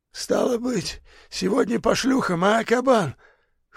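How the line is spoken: Hoarse cheerful question. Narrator (Russian): хрипло и весело спросил Забор

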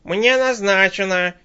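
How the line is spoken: Shrill habitual yell, woman. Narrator (Russian): Визгливо как-то привычно вопит тетка

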